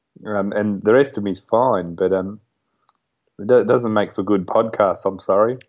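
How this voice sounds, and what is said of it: Hoarse, fading voice. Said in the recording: “I just keep losing my voice”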